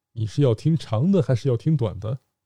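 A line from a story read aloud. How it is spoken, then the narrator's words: Plain. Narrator (Chinese): 小明说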